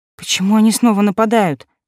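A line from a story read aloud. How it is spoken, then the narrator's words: Trembling question. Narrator (Russian): спросила я дрожащим голосом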